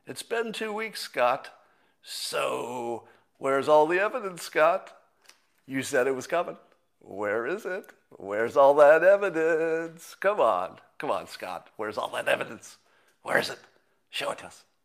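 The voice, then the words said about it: Mocking impression of a Democrat troll. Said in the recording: “That's my impression of every Democrat troll.”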